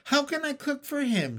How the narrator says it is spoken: cried

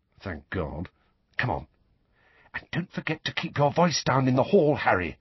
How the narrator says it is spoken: Hermione whispered

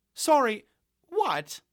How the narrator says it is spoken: Chloe cried in ultimate exasperation, her words let out like air from a tire

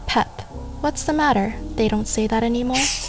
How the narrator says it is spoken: He laughs back

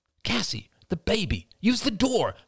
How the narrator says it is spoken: snapped Ian

